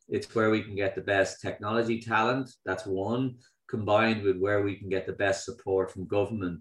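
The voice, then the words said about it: Speaker's own regional accent. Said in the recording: “don't let my accent fool you”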